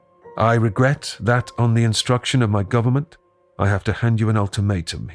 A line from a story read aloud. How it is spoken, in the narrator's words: he says